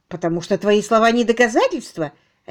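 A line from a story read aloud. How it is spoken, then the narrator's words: Sharp, curt. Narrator (Russian): резко бросила Генриетта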